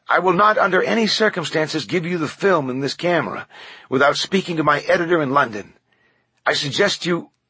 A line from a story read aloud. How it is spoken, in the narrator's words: Macri yelled